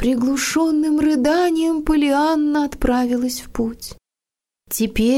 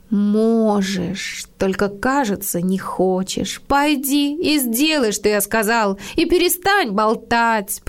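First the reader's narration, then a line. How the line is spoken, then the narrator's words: Weak moan. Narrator (Russian): простонал мужчина слабо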